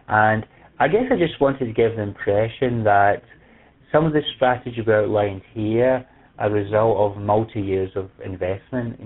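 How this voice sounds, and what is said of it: Speaker's own noticeable accent. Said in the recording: “persevering with my accent”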